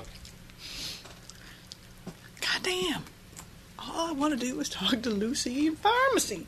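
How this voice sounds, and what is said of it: Put-on accent voice. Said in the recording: “Different accent every time.”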